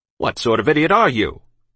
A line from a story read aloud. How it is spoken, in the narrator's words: he snapped